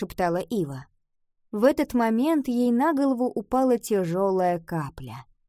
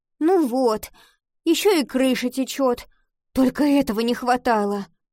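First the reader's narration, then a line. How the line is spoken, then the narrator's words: Groan. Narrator (Russian): простонала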